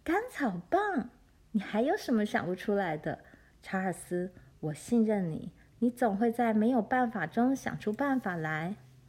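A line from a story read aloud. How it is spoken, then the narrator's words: Laughing loudly. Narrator (Chinese): 妈大笑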